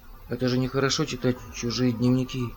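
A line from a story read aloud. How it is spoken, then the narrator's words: Glum mumble. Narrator (Russian): уныло промямлил Том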